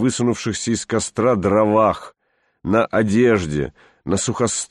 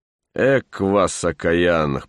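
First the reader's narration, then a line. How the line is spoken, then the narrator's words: Good-natured grumble. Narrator (Russian): проворчал я на них незлобиво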